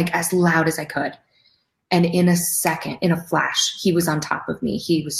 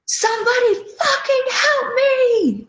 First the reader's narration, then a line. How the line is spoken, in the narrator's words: I screamed